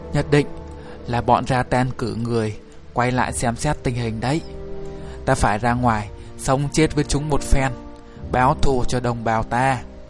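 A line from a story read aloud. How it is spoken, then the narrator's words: Harsh, gritted voice. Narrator (Vietnamese): người Sita đã gằn giọng nói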